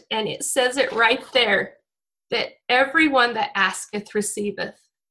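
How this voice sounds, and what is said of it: Emotional, choked-up voice. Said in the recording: “I'm a little bit emotional”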